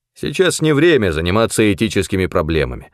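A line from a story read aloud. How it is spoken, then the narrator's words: Dry. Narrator (Russian): сухо ответил Керн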